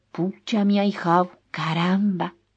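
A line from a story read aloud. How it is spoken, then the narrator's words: Exclaiming. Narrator (Spanish): exclamó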